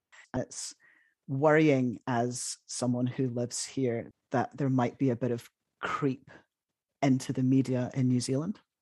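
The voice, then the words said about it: British accent. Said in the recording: “if people can't tell from your accent, you're from the UK”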